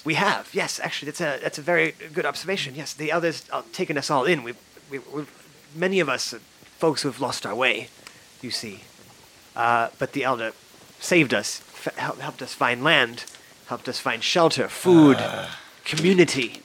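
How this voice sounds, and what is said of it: Put-on character accent. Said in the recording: “Why do you have so much of a different accent than your elder?”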